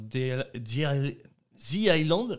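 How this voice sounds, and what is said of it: Poor English accent, French speaker. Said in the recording (French): “mon accent anglais est horrible”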